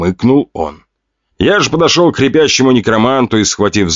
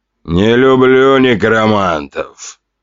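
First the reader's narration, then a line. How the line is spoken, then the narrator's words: Grumbled. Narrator (Russian): проворчал тортик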